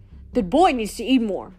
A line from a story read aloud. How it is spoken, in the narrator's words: Demeter grumbled